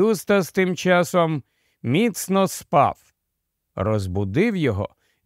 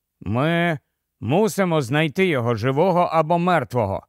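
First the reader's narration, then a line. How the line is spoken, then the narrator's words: Tired. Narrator (Ukrainian): втомлено промовив Каспіан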